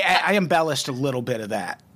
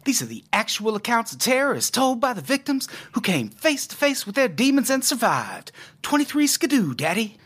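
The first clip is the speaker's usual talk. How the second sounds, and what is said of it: Good Eli Roth impression. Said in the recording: “that is Eli Roth's voice ... it was a good impression. I basically thought Eli was on the podcast for a second.”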